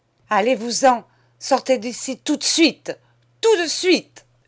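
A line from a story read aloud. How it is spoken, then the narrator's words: Screaming. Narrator (French): hurlait madame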